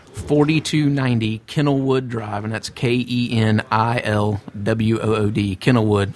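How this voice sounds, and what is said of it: Southern American accent. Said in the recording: “With my southern accent, people can't seem to pick that up when I'm talking to them on the phone.”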